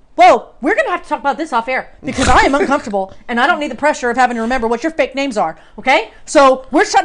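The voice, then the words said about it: Raised, elevated voice. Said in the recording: “my voice is elevated.”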